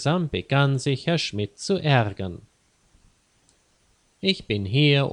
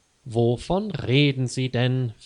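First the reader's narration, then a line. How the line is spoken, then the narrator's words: Plain question. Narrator (German): fragte Herr Schmidt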